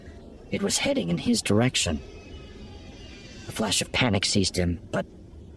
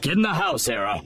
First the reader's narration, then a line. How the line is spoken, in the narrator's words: He shouted